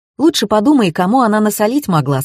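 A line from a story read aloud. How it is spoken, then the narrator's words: Plain. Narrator (Russian): сказал Савва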